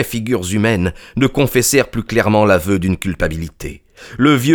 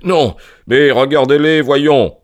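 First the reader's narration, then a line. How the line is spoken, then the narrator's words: Shouted. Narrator (French): cria Holmes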